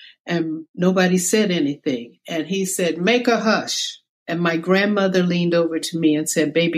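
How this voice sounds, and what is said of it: Usual voice. Nothing is said of it.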